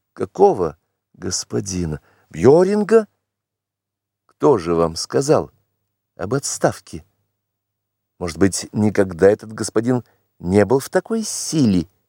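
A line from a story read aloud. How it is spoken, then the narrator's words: Sarcastic sneer. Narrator (Russian): язвительно усмехнулась она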